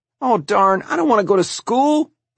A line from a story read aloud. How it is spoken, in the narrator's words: Larry whined